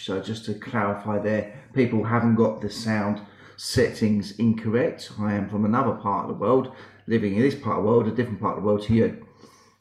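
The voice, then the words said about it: British accent. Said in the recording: “my accent is very British”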